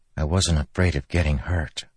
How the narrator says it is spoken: Cal said softly

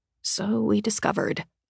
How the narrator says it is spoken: I mutter

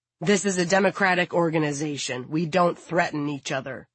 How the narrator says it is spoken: the president replies sternly

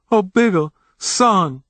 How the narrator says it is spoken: his mother wailed

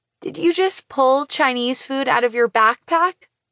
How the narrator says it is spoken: I laugh

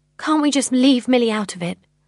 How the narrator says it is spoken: I ask desperately

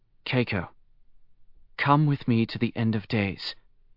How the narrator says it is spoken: Heinz murmured

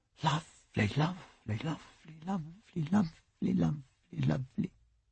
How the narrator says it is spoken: they both murmured

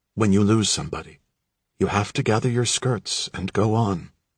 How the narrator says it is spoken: my mother remarked gently

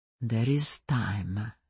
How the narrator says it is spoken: he said, his voice as gentle as I'd ever heard it

